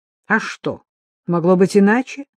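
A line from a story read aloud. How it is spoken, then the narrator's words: Sharp. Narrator (Russian): резко произнес Патрик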